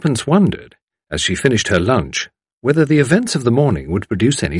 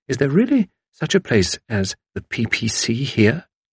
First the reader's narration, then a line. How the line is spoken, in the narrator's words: whispered Tuppence